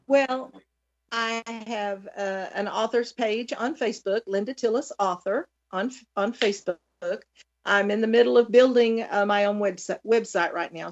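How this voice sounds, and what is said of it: Pleasant regional accent. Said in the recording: “your accent ... I do love to listen to you talk. It's very nice.”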